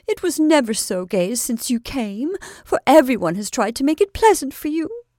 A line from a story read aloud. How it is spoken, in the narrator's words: cried Kate, ruffled at his indifference to the hospitable efforts of herself and friends